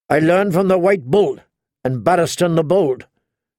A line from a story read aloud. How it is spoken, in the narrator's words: Jamie snapped